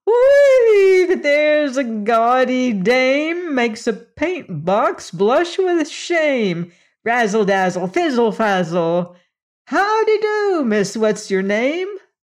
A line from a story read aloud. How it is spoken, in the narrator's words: she exclaimed